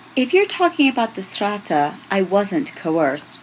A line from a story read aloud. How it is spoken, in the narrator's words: Julian says, trying to keep his tone mild